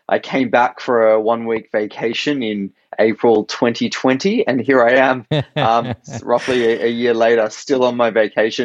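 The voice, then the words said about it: Australian accent. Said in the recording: “I'm in Sydney, Australia. That's my accent originally. I am Australian.”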